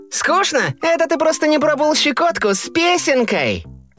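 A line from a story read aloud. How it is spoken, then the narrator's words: High playful singing. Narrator (Russian): И он запел тоненьким задорным голосом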